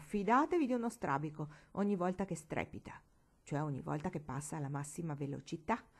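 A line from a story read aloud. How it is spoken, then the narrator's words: Uncle's exclamation. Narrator (Italian): tuo zio esclamò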